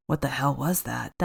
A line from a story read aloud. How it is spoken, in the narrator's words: Diver whispered